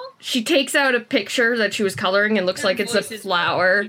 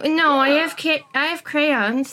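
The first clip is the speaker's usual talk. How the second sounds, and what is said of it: Performed child's voice. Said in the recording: “do this voice ... I like to think my child voice is pretty good ... It is hilarious”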